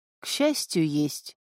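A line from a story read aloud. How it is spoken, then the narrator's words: Dejected, sinking voice. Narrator (Russian): упавшим голосом ответил Виттер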